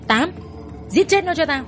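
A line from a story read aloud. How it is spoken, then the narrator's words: Old man shouting loudly. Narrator (Vietnamese): Hưng già hét lớn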